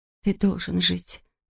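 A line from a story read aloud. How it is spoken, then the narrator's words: Whisper. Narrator (Russian): прошептала Кэт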